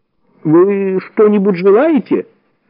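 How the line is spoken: Timid babbling hotel owner. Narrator (Russian): пролепетал владелец отеля

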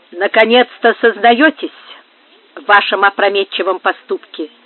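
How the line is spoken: Icy tone. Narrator (Russian): продолжала Бланка ледяным тоном

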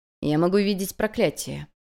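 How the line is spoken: Calm. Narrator (Russian): произнес Ло Джен спокойным голосом

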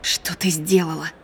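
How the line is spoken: Whisper. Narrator (Russian): прошептала Имаджен

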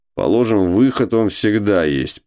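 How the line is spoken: Grumbling. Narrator (Russian): проворчал Кузьма Иванович

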